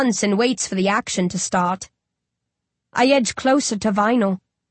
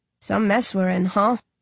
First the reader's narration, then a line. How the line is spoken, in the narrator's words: He sighs